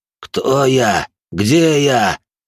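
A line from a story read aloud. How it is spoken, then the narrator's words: Loud rapid questions. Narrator (Russian): Начал он громко задавать один вопрос за другим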